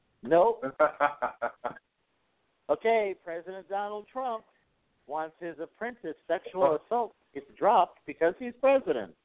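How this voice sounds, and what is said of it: Southern accent. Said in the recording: “your southern accent is flourishing”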